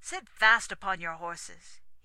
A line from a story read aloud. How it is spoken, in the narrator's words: he cried at parting